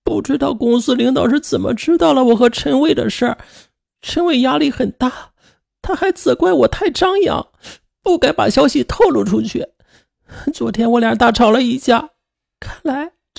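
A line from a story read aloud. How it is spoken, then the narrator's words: Crying. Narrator (Chinese): 王青青忍不住哭着说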